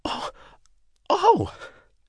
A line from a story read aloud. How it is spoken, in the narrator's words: She exclaimed